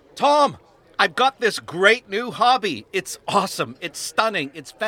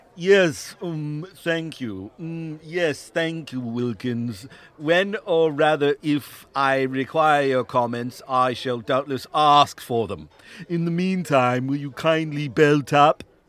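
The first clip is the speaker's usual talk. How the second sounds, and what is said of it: Imitates another person's voice. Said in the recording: “Vocal impersonations ... It's Mr. Ross, my old physics teacher.”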